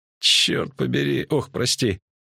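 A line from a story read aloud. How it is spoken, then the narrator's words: Groaning. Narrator (Russian): снова застонал поэт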